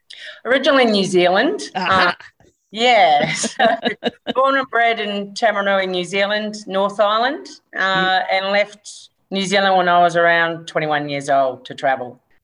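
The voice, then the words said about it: New Zealand accent, close to Australian. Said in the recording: “That accent sounds close to being Australian, but not quite.”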